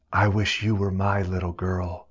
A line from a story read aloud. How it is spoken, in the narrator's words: Miss Leonard whispered to her